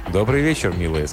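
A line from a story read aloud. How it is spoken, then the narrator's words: Plain. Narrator (Russian): сказал он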